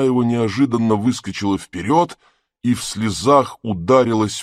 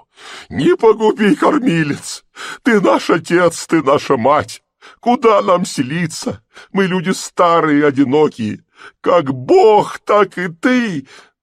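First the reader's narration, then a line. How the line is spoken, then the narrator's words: Wailing. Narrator (Russian): завопила она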